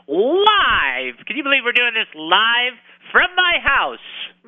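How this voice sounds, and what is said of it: Loud, energetic radio delivery. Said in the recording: “I'm talking so loud.”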